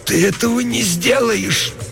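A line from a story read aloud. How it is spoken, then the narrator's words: Groaning hoarse wheeze. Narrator (Russian): застонала чуть громче и прохрипела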